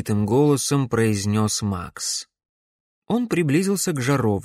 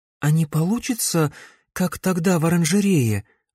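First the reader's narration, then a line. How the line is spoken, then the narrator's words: Anxious question. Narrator (Russian): взволнованно спросила Камилла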